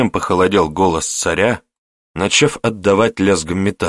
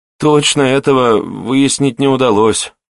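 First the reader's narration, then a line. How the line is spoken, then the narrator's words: Uncertain speaker. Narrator (Russian): неуверенно произнес докладчик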